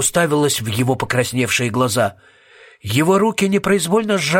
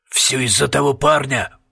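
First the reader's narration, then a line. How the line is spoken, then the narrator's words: Muttered. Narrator (Russian): пробормотал Пуст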